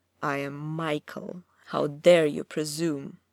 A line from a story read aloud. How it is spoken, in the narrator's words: he thundered, dark with rage at being referred to as such